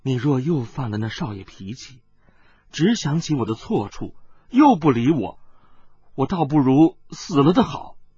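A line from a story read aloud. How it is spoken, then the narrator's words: Soft voice. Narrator (Chinese): 温代代轻声地说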